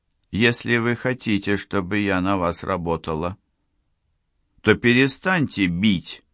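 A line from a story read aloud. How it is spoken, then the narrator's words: Calm. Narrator (Russian): спокойно сказала Лиза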